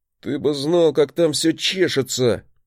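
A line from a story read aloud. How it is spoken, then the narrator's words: Half groan, half growl. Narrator (Russian): Не то простонал, не то прорычал он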